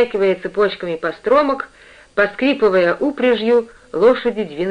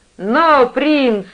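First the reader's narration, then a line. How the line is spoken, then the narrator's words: Shout. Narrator (Russian): крикнул Питер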